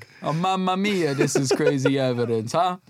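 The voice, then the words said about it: Mock Italian accent. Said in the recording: “doing an Italian accent”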